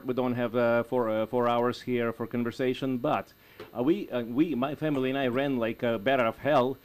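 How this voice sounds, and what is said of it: Russian Eastern European accent. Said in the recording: “You may guess from my accent and my name, that my origin is actually from Eastern Europe. Actually, I'll tell you, it's Russia.”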